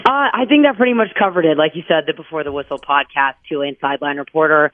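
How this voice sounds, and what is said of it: Strained voice, still recovering. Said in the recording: “My voice is still a little bit recovering from Saturday night's matchup.”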